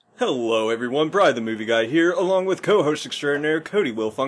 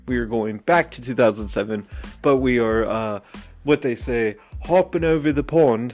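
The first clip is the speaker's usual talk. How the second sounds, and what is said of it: Bad put-on English accent. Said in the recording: “really bad accent, really bad, I'm sorry, terrible ... I was about to do an English impression”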